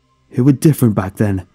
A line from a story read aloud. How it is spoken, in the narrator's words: he cried